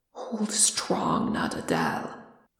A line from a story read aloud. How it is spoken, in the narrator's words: Frerin whispered harshly in his ear